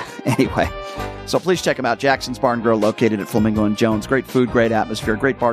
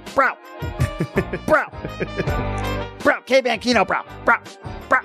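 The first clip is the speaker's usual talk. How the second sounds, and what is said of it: Imitates another person's voice. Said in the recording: “Now I'm sounding like Chris Wynn ... that was my Chris Wynn impersonation”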